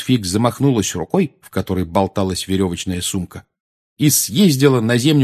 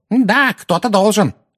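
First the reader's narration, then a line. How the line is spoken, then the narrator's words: Screaming woman. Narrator (Russian): вопила миссис Фиг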